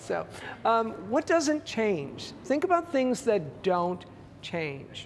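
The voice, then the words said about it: Canadian accent. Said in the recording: “when they hear my accent ... I'm Canadian”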